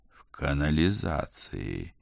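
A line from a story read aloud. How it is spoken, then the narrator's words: Reluctant, through clenched teeth. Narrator (Russian): нехотя процедил я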